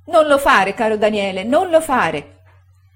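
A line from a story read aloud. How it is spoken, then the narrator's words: Moved, emotional shout. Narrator (Italian): gridava commossa la signora Gummidge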